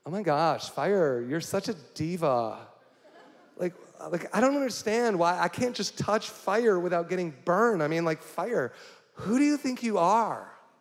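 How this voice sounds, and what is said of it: Valley Girl impression. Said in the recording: “that was my Valley Girl impression”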